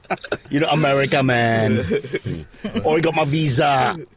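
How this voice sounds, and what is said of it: Put-on Jamaican-English mixed accent. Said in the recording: “wrong continent accent. I'm more Jamaica meets England.”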